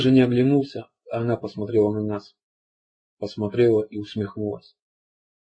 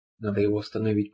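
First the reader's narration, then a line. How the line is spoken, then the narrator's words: Whisper. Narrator (Russian): прошептал я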